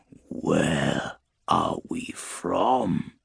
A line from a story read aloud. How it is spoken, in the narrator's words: draws in a long, wheezing breath